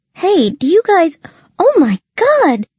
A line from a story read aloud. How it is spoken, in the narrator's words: She squealed, seeing the dove